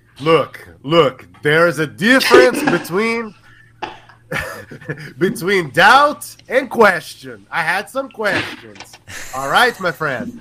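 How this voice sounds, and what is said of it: Portuguese accent. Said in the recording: “I love your Portuguese accent.”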